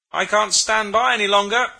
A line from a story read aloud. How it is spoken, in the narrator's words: shouted the other